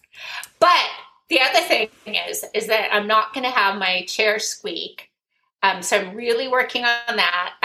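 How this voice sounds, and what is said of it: Squeaky voice. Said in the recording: “my squeaky voice”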